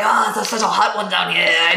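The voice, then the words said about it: Poor raspy put-on Australian accent. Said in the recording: “my accent is awful ... very raspy Australian”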